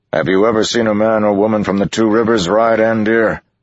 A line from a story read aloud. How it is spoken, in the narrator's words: Lan yelled back